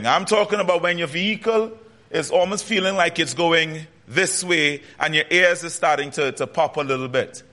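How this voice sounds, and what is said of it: Trinidadian Caribbean accent. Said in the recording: “As you can tell, I have an accent. I'm from the Caribbean, from Trinidad and Tobago specifically.”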